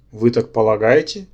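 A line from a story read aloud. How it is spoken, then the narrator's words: Mocking question. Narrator (Russian): насмешливо переспросил принц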